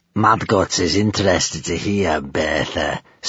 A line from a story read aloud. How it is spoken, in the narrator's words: sneered Gumboil